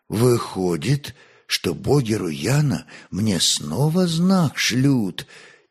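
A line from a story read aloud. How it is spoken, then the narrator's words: Slightly trembling voice. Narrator (Russian): чуть дрогнувшим голосом проговорил князь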